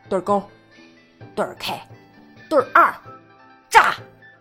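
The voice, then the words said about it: Loud card-game shouting. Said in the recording (Chinese): “你们能不能小声一点？”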